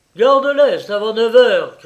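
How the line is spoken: Shouting. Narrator (French): cria-t-il

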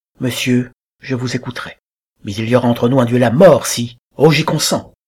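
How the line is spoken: Exclaiming. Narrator (French): s'écria M

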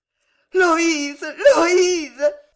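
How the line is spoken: Ringing loud voice. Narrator (French): répéta Jeanne d'une voix éclatante

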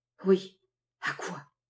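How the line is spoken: Murmured. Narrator (French): murmura Sanders

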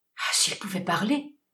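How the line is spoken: Stammering. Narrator (French): balbutia Guasco

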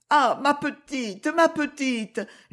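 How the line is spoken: Old servant moaning. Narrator (French): gémissait la vieille bonne

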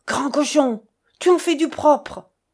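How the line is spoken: Exclaimed. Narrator (French): s'exclama-t-elle à peine entrée

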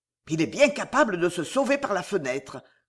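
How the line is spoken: Growling. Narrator (French): gronda Loigne

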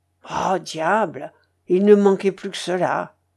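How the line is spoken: Muttered through teeth. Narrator (French): grommela-t-il entre ses dents

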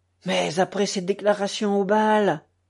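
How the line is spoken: Exclaiming. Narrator (French): s'écria madame Massin

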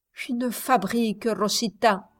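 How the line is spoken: Barely intelligible voice. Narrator (French): répondit Modesto d'une voix à peine intelligible

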